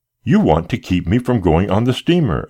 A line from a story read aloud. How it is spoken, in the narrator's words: cried